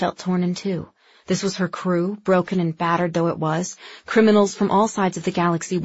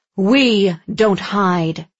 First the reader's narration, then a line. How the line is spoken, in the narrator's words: Lyra said hotly